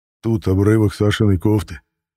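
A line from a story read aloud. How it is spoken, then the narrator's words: Breaking voice. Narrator (Russian): Надломленным голосом сказал Роман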